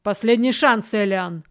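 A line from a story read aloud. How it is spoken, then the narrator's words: Shout. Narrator (Russian): выкрикнул Верган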